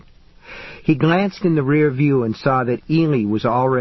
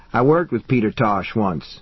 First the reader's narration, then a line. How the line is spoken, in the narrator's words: he replied